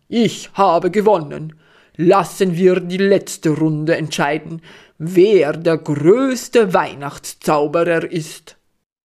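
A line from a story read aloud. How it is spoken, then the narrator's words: Bellowing across room. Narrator (German): brüllt Wendelin durch den Raum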